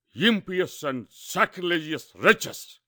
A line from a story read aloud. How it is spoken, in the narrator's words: shouted the king